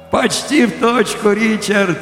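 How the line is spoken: Cheerful laughing. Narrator (Russian): весело засмеялся я

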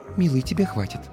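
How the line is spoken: Gentle whisper. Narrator (Russian): Стелла мягко прошептав

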